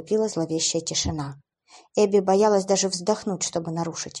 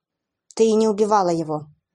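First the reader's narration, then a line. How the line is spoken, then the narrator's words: Confident blurting. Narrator (Russian): Уилл выпалил с уверенностью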